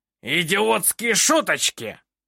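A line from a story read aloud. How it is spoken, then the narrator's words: Roaring. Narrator (Russian): Взревел Снивель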